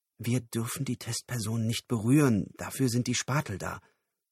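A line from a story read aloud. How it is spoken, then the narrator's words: Whispered. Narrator (German): flüsterte Lyle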